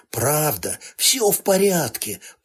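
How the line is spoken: Female friend rasping hoarsely. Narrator (Russian): прохрипела подруга

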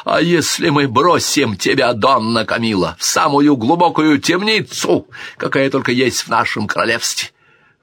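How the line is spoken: Shouted. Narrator (Russian): выкрикнул

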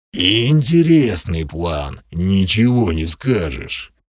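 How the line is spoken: Hoarse grumble. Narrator (Russian): проворчал стоящий у стены Крим, и от его незнакомо хриплого голоса

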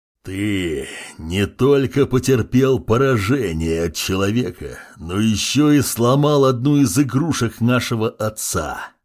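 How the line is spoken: Growl. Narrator (Russian): Прорычал рослый демон

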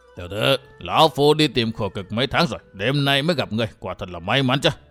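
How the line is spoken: Hoarse, ghostly nasal voice. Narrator (Vietnamese): lão quái nhân áo đỏ bịt mặt cất giọng khàn khàn như quỷ mũi

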